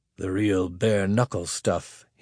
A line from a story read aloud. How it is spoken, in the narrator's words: he muttered